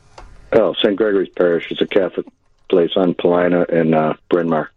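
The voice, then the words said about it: Chicago accent. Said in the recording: “Do people say you got a Chicago accent ... Yes, yeah, they do.”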